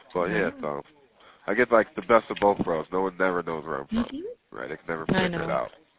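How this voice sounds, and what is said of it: Slight southern twang. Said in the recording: “it's like a little southern twang in my accent here a little bit”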